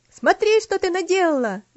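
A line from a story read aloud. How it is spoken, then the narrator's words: Shouting. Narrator (Russian): закричал Артур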